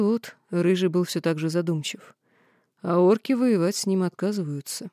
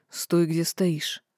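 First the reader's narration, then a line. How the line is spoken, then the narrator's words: Hoarse command. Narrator (Russian): хрипло приказал Рыжий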